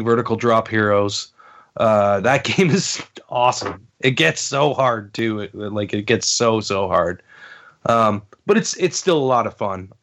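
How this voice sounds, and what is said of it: Sick-sounding voice. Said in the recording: “I've been like sick. I don't know if you guys can hear it in my voice.”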